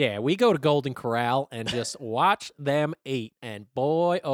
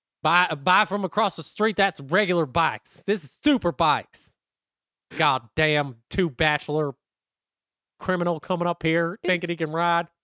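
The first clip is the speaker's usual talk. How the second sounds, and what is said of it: Put-on South Carolina accent. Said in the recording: “It's just a classic South Carolina accent.”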